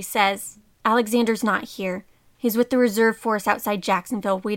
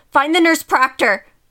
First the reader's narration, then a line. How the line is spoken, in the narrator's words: said urgently